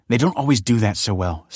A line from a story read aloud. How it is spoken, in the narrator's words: snapped Kelsey